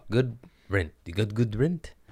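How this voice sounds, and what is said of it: Puts on an odd accent. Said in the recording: “What the fuck accent was that?”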